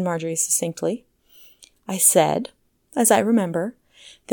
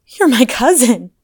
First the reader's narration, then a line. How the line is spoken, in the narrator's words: sobbed Bernice